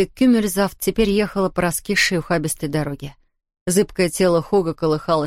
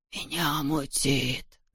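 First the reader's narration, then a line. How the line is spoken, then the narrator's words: Moaning. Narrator (Russian): стонал он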